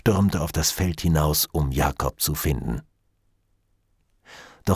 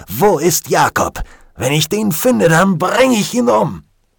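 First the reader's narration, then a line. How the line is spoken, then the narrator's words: Shouted. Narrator (German): Er stampfte mit dem Fuß auf den Boden und schrie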